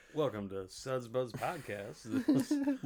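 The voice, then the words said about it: Loud game show host voice. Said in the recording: “being loud and just being, you know, talking like a game show host like you do”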